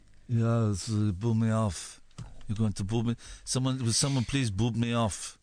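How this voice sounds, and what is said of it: Put-on accent. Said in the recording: “I'm doing an accent.”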